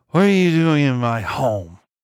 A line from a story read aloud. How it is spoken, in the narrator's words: The words mangled together as she spat them through swollen, unfeeling lips, dripping with her own spittle